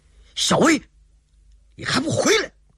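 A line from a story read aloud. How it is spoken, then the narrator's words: Startled shout. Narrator (Chinese): 铁梦能想不到妹妹竟然会有这种突然的举动，不禁大吃一惊，顿时喊了一声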